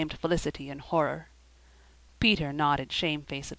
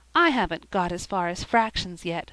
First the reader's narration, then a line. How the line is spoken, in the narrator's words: sighed Sara